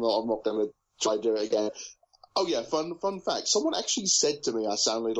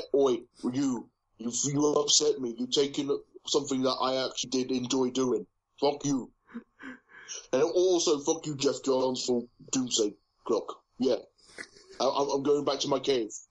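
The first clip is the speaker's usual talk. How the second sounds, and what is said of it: Imitates another person's voice. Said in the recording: “my Alan Moore impression.”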